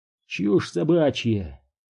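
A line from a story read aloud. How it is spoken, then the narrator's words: Grumbling mutter. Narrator (Russian): буркнул Дью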